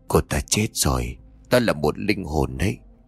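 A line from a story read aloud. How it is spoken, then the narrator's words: Trembling frightened old woman. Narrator (Vietnamese): Bà già người Hoa gương mặt xám ngoét ... đáp bằng giọng run rẩy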